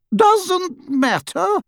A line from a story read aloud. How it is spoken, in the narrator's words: repeated Hestia, her voice rising ominously